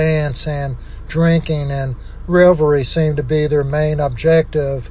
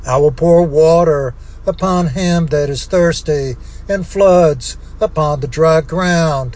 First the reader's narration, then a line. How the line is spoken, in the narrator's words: pleaded day and night in prayer